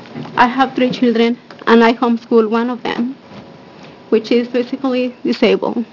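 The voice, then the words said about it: Emotional, shaky voice. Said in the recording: “I'm sorry, I'm a little emotional”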